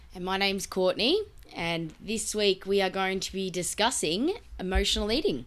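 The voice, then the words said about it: Sick, flu-affected voice. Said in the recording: “I am battling a little bit of a flu. So my voice sounds probably a little bit funnier than normal, a bit stranger than normal.”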